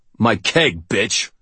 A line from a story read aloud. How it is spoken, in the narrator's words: the big man snarled